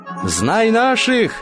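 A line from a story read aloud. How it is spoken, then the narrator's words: Shouted. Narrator (Russian): закричал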